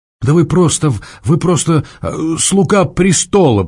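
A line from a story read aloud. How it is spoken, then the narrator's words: Said through gritted teeth. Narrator (Russian): процедила Варя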